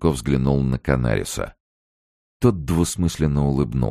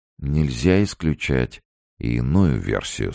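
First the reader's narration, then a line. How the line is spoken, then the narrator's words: Soft. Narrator (Russian): сказал он мягко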